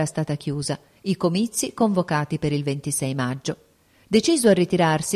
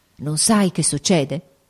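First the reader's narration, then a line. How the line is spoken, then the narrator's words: Quiet grave worried exclamation. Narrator (Italian): esclamò piano il duca, ma con aria grave ed inquieta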